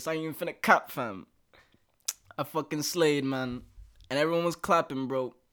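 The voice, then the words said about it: Put-on British accent. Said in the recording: “I'ma go into the British accent for this.”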